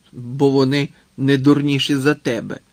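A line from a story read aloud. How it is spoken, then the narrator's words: Angry old man. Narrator (Ukrainian): сердито глипнув дід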